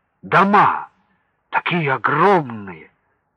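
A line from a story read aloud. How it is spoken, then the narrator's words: Exclaimed. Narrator (Russian): воскликнул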